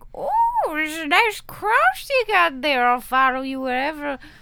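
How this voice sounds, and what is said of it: Put-on unidentifiable accent. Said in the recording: “I don't know what that accent was.”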